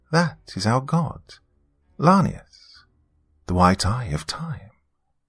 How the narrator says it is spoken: She seemed unfazed and calmly stated

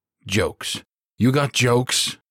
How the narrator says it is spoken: Dickerson snapped

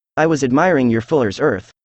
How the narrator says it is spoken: said I

